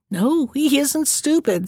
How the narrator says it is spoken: said the woman with a sigh

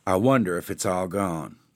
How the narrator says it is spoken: she said, murmuring

